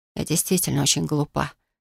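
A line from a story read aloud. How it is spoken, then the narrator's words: Quiet. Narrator (Russian): тихо произнесла я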